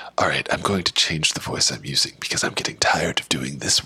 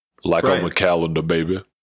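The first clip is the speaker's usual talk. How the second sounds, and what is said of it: Radio announcer voice. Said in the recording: “Now that's a radio voice.”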